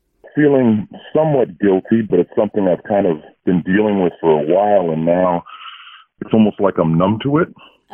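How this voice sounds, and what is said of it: Disguised voice through voice changer. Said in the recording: “Your phone line's being run through our voice changer”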